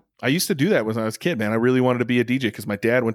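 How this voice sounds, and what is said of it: Usual voice. Nothing is said of it.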